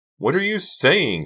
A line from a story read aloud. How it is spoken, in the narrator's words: Karina screamed